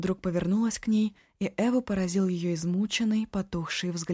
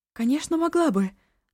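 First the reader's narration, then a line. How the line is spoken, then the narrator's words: Hurried reassurance. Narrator (Russian): торопливо заверила Эва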